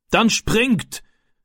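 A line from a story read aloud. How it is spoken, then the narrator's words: Called out. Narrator (German): rief der Mann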